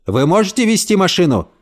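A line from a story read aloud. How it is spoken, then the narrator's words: Very loud shout. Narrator (Russian): крикнул полицейский так громко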